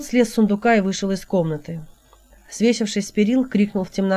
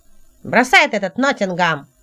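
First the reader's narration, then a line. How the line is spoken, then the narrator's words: Shrill, squealing intonation. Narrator (Russian): сказал Хелот с визгливой интонацией Гури длинноволосого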